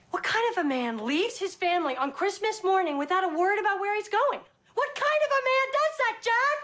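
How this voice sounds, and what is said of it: Yelling angrily. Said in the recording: “stop yelling”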